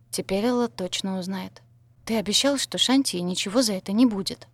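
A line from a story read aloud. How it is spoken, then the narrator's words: Whispered reminder. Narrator (Russian): шепотом напомнила я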